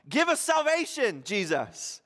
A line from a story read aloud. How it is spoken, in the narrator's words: shouting out